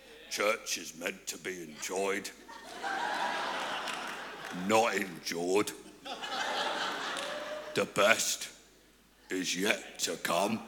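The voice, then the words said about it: Imitates another person's voice. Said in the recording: “did a Brian Houston impression”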